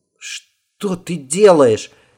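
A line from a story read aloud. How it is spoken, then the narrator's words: Frightened boy's shriek. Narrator (Russian): испуганно не то вскрикнул, не то взвизгнул мальчик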